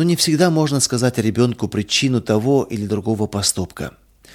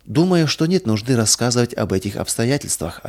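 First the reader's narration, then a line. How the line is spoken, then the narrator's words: Plain. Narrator (Russian): ответила тетя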